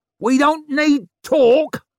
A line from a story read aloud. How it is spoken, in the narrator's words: she howled